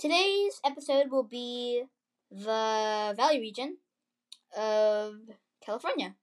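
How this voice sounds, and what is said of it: Usual voice. Nothing is said of it.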